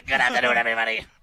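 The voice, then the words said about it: Imitates another person's voice. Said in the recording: “The Arnie impression is this”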